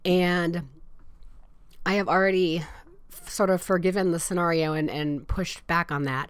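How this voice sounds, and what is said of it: Nasal, congested sick voice. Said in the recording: “you probably hear it already. I'm a little nasally. ... my voice is probably more like Demi Moore than like myself”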